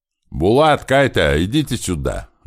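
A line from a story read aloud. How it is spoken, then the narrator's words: Loud shout from water. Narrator (Russian): громко крикнула из воды Ира Большого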